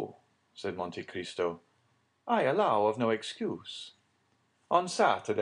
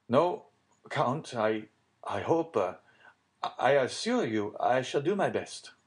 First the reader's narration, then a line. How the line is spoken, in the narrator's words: stammered Villefort